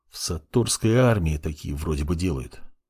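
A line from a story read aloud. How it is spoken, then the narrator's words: Apprentice muttering. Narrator (Russian): пробормотал темный подмастерье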